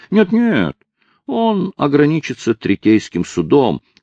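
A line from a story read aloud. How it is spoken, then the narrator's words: Feigned uncertain tone. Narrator (Russian): сказал Хайрам и добавил неуверенным тоном, хотя судья отлично видел, что это лишь притворство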